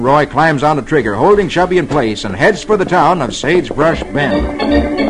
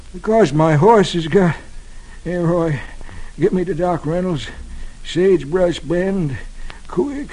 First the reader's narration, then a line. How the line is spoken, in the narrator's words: Chubby says weakly